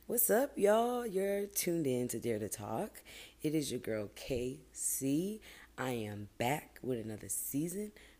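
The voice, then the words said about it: Hoarse, fading voice. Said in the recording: “my voice is like slowly going away”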